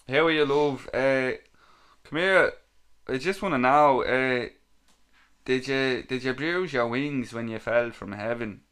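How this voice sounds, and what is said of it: Put-on Dublin accent. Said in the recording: “I'll read this one in my best Dublin accent.”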